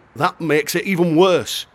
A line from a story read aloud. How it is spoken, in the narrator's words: shouted